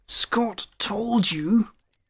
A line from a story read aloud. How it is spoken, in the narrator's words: Elderberg snarled